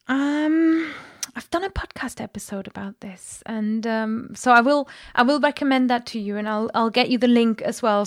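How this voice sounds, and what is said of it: Native-sounding English accent. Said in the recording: “your excellent English accent ... I didn't realize you were not a native speaker because your accent is so good”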